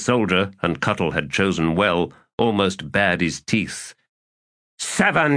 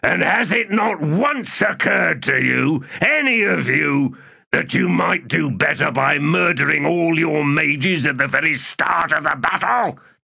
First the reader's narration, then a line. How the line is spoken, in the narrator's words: In a bellowing shout, said